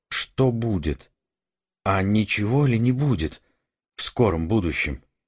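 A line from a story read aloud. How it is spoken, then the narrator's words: Strained, indistinct question. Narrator (Russian): Эггерт смог выдавить из себя только невнятный вопрос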